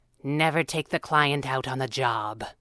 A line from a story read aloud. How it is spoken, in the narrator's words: Abigail said grimly